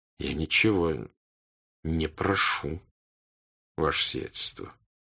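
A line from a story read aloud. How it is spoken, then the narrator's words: Quiet. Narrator (Russian): тихо проговорил князь Андрей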